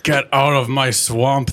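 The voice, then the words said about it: Shrek character voice impression. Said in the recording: “That's my Shrek impression.”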